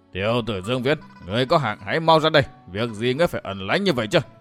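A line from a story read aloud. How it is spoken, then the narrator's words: Woman's deep ringing laughter. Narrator (Vietnamese): Hồng y phụ nhân phá lên cười lanh lảnh bằng giọng nói nặng trầm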